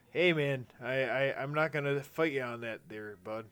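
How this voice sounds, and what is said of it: Put-on Canadian-style northern accent. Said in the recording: “north-sounding accent ... You're doing it again, man.”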